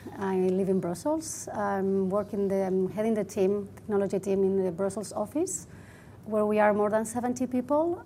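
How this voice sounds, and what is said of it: Spanish accent in English. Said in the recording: “You might guess from my accent, I'm Spanish.”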